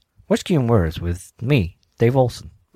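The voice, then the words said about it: Imitates another person's voice. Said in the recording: “That sounds just like... I found that impression in my head”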